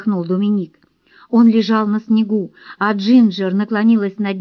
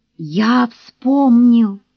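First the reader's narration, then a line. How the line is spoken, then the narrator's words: Muffled hollow voice. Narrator (Russian): Глухо произнес он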